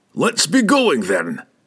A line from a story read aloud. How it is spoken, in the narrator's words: he roared in his familiar voice of confidence